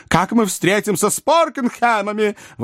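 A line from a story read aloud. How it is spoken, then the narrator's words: Exclaim. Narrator (Russian): воскликнула миссис Напкинс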